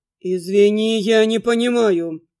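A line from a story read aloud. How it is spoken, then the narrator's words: Growled. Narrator (Russian): рыкнул Дан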